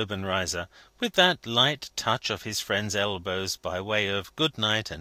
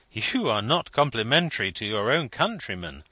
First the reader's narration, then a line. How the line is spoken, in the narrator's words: laughed Vendale